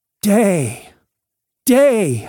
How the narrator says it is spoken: I shouted

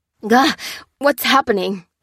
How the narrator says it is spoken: He spluttered

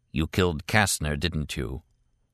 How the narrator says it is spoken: Martin said very softly

